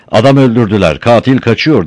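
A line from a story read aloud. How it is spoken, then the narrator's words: Starting to shout. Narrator (Turkish): diye bağırmaya başladı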